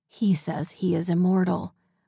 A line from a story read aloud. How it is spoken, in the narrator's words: whispered the strange voice